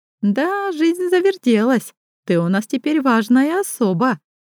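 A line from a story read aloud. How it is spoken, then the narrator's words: Giggling over phone. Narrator (Russian): хихикает Соня в трубку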